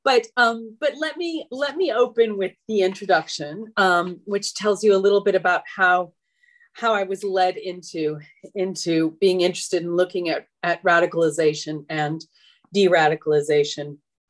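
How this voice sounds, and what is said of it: Slightly out of breath. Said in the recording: “I'm slightly out of breath because I ran to the front of my flat.”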